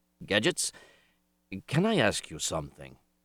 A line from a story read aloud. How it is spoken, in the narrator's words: Schwartz grunted